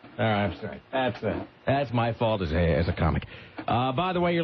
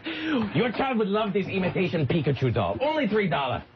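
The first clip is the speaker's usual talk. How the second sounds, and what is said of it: Put-on Asian storekeeper accent. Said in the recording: “Oh, now she's become Asian. Now that accent somehow became the Asian storekeeper halfway through.”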